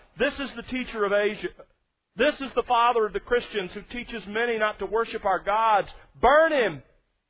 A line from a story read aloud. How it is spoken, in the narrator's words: The crowd began to shout